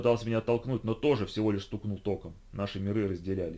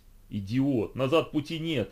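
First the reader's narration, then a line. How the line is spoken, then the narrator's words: Growling. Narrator (Russian): рычал я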